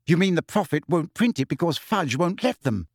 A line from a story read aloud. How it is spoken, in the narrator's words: said Hermione irritably